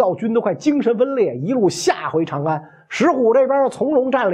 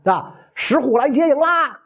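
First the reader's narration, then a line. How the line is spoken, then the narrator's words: Shouting. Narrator (Chinese): 这些骑兵在刘耀营外大喊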